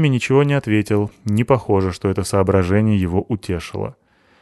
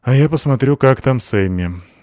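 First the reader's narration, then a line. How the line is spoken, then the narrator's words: Sighed. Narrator (Russian): вздохнула Абута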